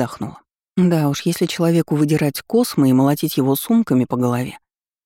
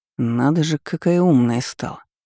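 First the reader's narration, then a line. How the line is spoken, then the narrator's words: Grumbling. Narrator (Russian): буркнул Демьян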